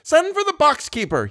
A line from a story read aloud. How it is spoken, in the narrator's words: he shouted